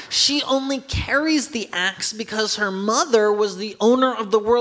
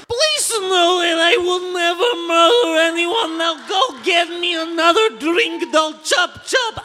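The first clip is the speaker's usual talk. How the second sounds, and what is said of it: Smooth put-on Romanian accent. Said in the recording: “glorious and smooth Romanian accent”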